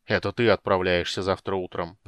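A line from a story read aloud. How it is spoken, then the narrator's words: Grumbling mutter. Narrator (Russian): пробурчал Флинт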